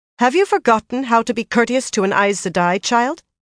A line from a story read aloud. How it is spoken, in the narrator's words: said sharply